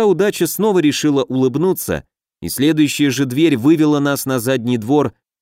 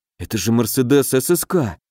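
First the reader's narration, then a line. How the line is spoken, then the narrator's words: Mumbled. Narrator (Russian): пробормотал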